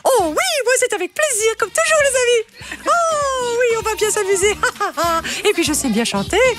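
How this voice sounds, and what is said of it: Cartoon mouse character voice. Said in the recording (French): “que vous fassiez le challenge Pierre Demar avec la voix de Mickey”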